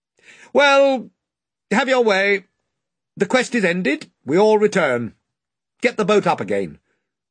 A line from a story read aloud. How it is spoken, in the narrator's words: shouted out to the ship in general